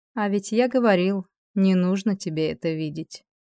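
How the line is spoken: Gentle reminder. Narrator (Russian): мягко напомнил Риэль

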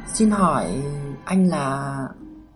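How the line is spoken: Gentle question. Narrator (Vietnamese): Cô hỏi nhẹ nhàng

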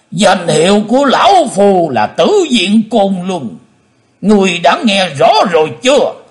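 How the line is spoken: Hateful roar. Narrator (Vietnamese): Lão nhân mặt đỏ máu hận thù gầm to lên

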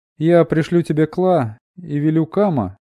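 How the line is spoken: Cheerful laugh. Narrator (Russian): весело хохотнула

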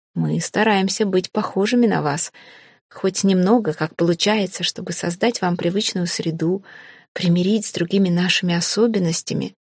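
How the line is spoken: Calm, composed reply. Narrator (Russian): спокойно, почти невозмутимо ответил Хейга

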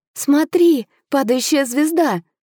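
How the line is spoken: Exclaimed. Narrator (Russian): воскликнула я

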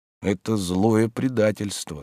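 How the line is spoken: Said in an undertone. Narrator (Russian): сказал он вполголоса

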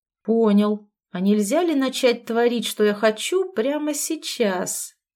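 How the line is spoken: Sweet cooing. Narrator (Russian): Сладко проворковал он

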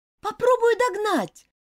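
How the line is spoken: Shouted. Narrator (Russian): крикнула Элизабет

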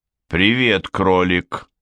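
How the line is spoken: Sighing. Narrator (Russian): вздохнул Бун

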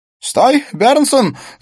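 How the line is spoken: Shout. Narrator (Russian): закричал Смит

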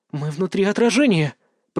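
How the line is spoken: Whisper. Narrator (Russian): прошептала Илона

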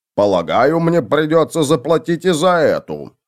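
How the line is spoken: Displeased grumble. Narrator (Russian): недовольно пробурчал он

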